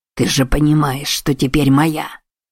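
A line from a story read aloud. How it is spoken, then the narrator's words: Growl. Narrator (Russian): Прорычал он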